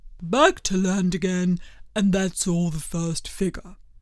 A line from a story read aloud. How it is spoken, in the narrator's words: said the Mock Turtle, suddenly dropping his voice